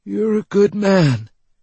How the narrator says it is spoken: he wheezed

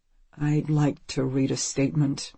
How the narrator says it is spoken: he mumbles

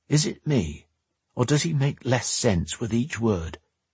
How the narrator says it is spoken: Drake remarked quietly

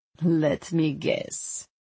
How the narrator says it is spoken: Vasina said with a throaty laugh

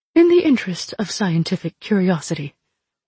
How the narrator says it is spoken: Althi said calmly

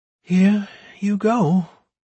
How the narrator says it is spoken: the priestess said in a weak voice

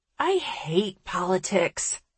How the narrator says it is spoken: I groan

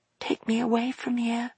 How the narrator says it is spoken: whispered Maggie

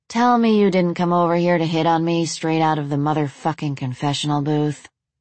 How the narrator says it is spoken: Rachel said flatly

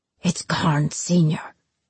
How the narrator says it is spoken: he hissed

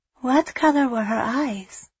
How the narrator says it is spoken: She asked gently

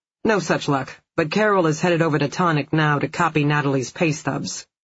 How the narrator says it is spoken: Phil said

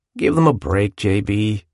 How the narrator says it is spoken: said, mildly, as everyone else laughed

